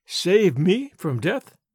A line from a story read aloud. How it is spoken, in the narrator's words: she asked, in a puzzled tone